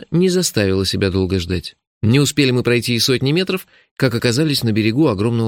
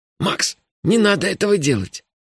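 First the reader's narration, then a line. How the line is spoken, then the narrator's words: Almost frightened plea. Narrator (Russian): почти испуганно попросил Мелифара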